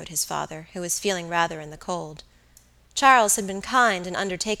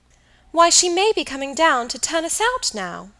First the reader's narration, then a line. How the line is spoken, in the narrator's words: Dolly, who had recovered, cried